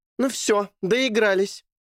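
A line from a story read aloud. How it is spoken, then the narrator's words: Shouting. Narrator (Russian): закричала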